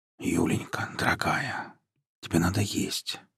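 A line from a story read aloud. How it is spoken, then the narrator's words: Tender whisper. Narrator (Russian): шептал он ей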